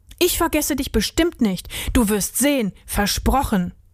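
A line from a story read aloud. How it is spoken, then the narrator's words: Powerful voice. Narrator (German): sagte Till mit kraftvoller Stimme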